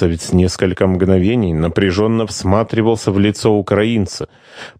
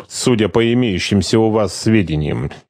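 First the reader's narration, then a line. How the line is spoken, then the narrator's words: Grumbling. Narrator (Russian): проворчал майор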